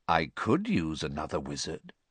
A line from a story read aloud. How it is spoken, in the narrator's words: said the first voice softly